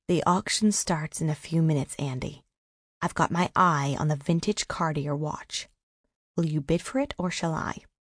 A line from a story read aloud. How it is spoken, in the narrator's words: Maria whispered in Andrew's ear